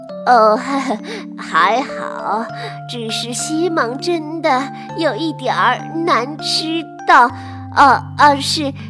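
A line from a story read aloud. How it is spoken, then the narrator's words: Forced frightening smile. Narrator (Chinese): 科马莫特太太挤出一个可怕的微笑，露着大牙说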